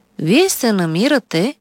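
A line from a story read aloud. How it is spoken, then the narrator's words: Calm doctor speaking. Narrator (Bulgarian): спокойно заговори лекар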